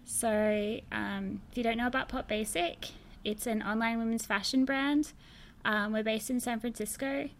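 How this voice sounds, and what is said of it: Australian accent. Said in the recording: “Don't be confused by my accent. I'm from Australia”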